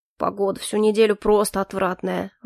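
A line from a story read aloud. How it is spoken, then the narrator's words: Grumbling. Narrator (Russian): ворчал инквизитор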